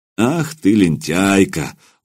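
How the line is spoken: Affectionate. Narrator (Russian): ласково проговорил Илья

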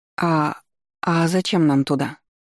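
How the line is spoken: Plain question. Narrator (Russian): спросила я

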